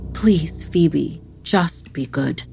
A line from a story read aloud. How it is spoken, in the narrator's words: her mother simply sighed and said